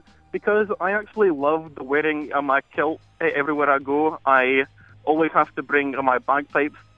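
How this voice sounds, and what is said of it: Scottish accent. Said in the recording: “you're Scottish ... our accent”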